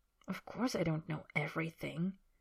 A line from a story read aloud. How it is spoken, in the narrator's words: Harry says quietly